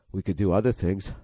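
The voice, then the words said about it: Terrible Butthead impression. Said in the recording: “What are you, butthead? ... terrible impression.”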